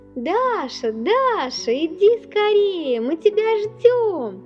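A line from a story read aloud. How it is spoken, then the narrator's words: Children shouting from afar. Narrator (Russian): крикнули с горки ребята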